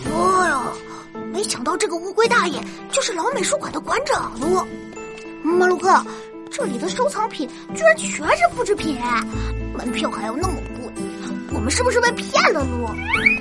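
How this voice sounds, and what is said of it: Angry, quiet muttering. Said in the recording (Chinese): “气呼呼的小声嘟囔”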